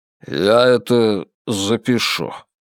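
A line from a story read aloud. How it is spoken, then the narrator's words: Muttered. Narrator (Russian): пробормотал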